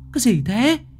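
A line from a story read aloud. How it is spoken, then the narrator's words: Startled shriek. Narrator (Vietnamese): Lệ Hằng rú lên một tiếng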